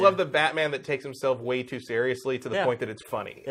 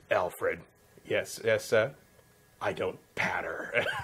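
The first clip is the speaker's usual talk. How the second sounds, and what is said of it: Imitation of Batman's voice. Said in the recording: “a pretty good imitation”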